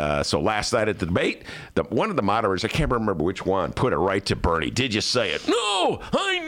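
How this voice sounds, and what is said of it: Usual voice. Nothing is said of it.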